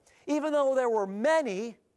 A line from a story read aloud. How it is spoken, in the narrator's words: they cried out, with one voice